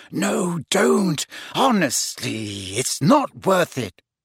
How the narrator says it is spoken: Hermione whispered

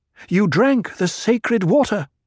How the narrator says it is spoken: she blurted

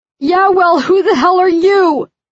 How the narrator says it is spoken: squeals

